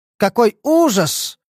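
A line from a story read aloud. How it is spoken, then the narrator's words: Exclamation. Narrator (Russian): воскликнул он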